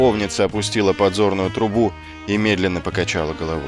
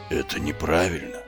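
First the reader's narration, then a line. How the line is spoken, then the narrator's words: Whisper. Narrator (Russian): прошептала она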